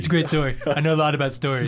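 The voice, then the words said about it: Imitates another person's voice. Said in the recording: “in a Donald Trump voice”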